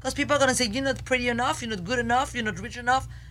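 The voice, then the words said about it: French accent. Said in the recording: “I have a French accent.”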